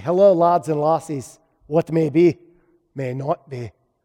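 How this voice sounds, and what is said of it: Put-on Scottish accent, not convincing. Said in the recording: “I just want to use a Scottish accent in a sermon... It didn't work.”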